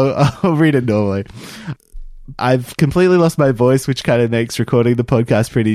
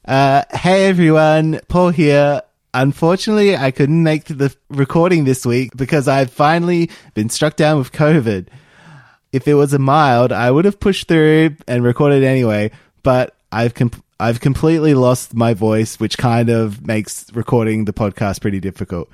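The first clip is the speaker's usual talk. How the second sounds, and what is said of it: Impression of a co-host's voice. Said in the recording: “that impersonation ... I was doing a beat Paul, and then I realized like this isn't where he'd be like registering. He'd be in that lower end, but then I sort of lost it.”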